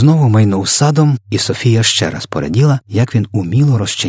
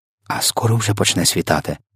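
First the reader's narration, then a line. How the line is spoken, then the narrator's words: Whispered question. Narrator (Ukrainian): пошепки поцікавилася Софія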